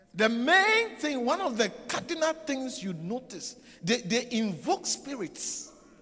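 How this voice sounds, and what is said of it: West African-influenced accent. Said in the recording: “That's why my accent is different ... I grew up in West Africa.”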